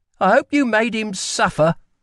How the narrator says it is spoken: she spat

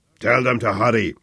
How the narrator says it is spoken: growled Fleischer

